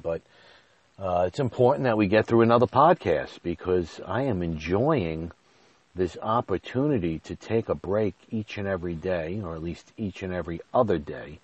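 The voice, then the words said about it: Nasal, congested voice. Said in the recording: “my voice sounds a little off today... a little bit of a scratchy throat... a little bit of a stuffy nose... I sound a little nasally”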